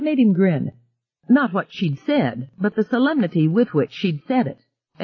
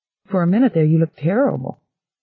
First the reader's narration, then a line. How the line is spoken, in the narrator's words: she answered gravely